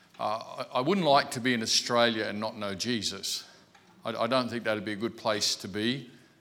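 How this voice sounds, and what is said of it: Australian accent. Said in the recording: “I really enjoy Australian accents. I have one”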